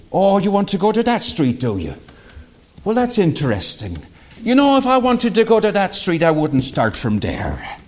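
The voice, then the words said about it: Put-on Irish accent. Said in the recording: “I'm honing my Irish accent”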